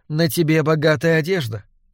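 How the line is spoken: Soft remark. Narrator (Russian): мягко заметила Торгунна

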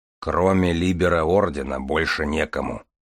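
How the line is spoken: Gloomy mumble. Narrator (Russian): угрюмо пробормотал Железовский

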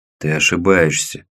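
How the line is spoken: Hoarse reply. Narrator (Russian): хрипло отозвался дядя Лёва

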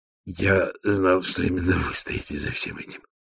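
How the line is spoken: Muttering. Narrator (Russian): пробормотал он

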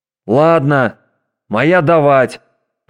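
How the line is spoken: Hasty shout. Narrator (Russian): поспешно выкрикнул Доутри

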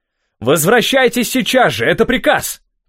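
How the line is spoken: Shouting. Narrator (Russian): крикнул Ив

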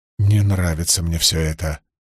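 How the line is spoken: Anxious grumble. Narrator (Russian): встревоженно проворчала Илэйн

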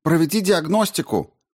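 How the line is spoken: Shouting. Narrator (Russian): крикнула Рао

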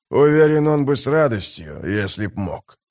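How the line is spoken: Sympathetic mutter. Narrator (Russian): пробормотал Геборик не без симпатии в голосе

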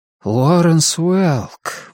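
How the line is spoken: Awed breathless. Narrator (Russian): выдохнул Том почти с благоговейным трепетом

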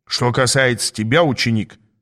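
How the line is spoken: Stern. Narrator (Russian): строго сказал Аас

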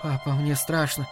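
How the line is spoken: Whisper. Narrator (Russian): прошептала она

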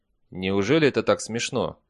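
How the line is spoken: Gloomy question. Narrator (Russian): мрачно спросил инспектор

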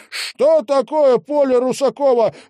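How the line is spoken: Shouting out. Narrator (Russian): выкрикнул, наконец, Маркельм

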